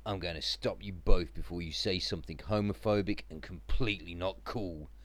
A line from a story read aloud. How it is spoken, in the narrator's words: growled